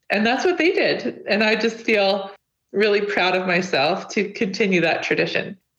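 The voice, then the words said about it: Emotional, choked-up voice. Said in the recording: “you can hear I'm a little bit emotional. I'm trying to choke it back.”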